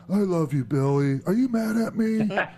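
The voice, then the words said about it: Imitates another person's voice. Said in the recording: “my Abyss impression”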